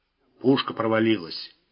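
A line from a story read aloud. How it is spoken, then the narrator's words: Grumbled. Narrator (Russian): буркнул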